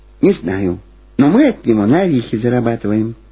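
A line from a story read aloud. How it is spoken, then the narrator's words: Quiet. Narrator (Russian): так же тихо ответила Люба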